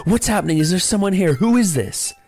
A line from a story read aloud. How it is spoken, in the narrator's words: I shouted